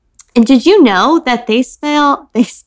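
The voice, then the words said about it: Put-on Southern accent. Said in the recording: “That Southern accent.”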